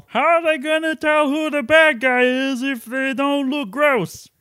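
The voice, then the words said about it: Imitates another person's voice. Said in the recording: “your Warren Beatty impression Bobcat Goldthwait”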